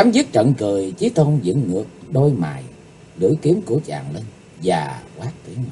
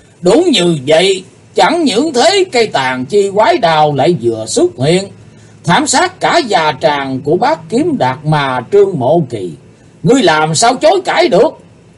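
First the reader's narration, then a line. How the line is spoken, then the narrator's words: Booming laughter. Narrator (Vietnamese): Chí Tôn cười to hơn, giọng cười chấn động như xé tát cả màn tai của quần hùng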